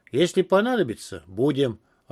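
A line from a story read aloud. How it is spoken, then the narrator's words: Snapping retort. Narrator (Russian): огрызнулся я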